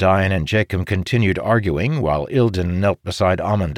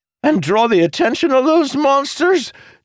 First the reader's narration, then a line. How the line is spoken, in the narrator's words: Jacob blurted